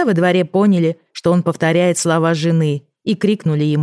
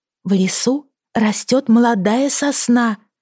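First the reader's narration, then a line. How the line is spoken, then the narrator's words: Whisper. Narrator (Russian): шепнула жена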